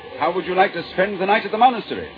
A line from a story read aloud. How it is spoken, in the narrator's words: shouted the monk